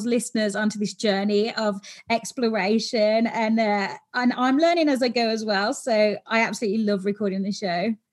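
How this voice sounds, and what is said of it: British accent. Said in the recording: “Is it the British accent? ... It probably is.”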